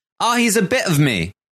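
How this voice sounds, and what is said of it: British accent imitation. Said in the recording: “If this was the UK version of the circle ... that was an excellent accent”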